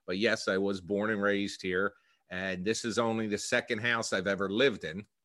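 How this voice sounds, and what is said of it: Philadelphia accent. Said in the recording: “a lot of comments I've received is that I have a Philadelphia accent”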